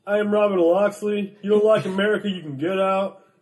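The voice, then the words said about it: Kevin Costner impression. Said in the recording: “a mulleted surfer, Kevin Costner, who's like”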